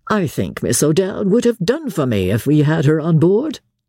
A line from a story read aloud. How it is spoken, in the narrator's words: he said laughingly